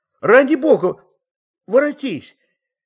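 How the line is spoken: Tearful crying out. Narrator (Russian): Не голосом, а слезами кричал он

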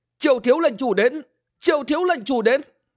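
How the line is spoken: Crowd shouting. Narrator (Vietnamese): từng nhóm người thét lên

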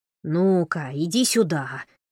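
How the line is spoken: Very grumpy voice. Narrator (Russian): самым что ни на есть сварливым голосом проговорил Джон

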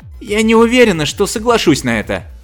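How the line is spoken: Irritated. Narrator (Russian): раздраженно произнесла миссис Хоскинс

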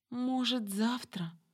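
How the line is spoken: Pleading. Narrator (Russian): взмолилась я

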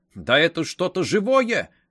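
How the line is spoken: Exclamation. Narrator (Russian): воскликнул он

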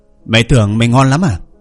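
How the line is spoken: Shouting. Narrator (Vietnamese): Vương Mộc Dương hét lên

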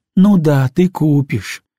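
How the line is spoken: Sighing. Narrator (Russian): она вздохнула

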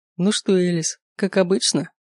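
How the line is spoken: Smirking question. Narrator (Russian): Усмехаясь, спросил он

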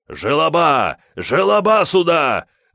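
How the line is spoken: Yelling. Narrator (Russian): орал Бенвенуто

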